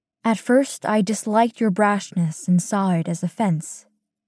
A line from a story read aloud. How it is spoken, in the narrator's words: she says